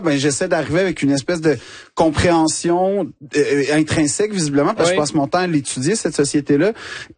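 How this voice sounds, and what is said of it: Québécois French accent. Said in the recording (French): “l'accent québécois ... tu dis avec cet accent”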